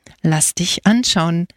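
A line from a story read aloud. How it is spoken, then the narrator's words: Plain. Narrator (German): sagte er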